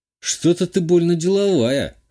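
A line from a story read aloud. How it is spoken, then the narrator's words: Scoffing. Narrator (Russian): хмыкнул я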